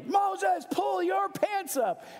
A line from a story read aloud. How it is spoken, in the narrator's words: Vicky yelled